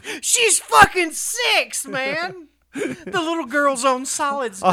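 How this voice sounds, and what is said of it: Usual voice. Nothing is said of it.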